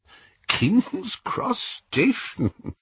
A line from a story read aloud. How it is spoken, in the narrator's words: Dumbledore was chuckling immoderately